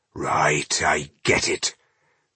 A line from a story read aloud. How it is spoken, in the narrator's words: Boindil said grimly